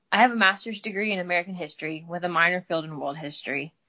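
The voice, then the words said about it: Slight Midwestern drawl. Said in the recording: “I'm from the Midwest, so I've got a little bit of a drawl”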